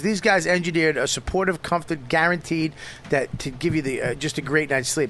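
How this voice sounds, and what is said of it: Boston accent. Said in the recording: “Comfort with an N. ... I said come from my Boston accent.”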